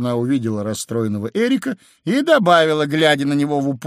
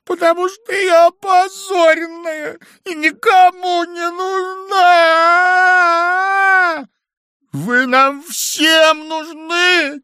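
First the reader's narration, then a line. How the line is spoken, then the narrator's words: Shouting. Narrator (Russian): крикнул Эрик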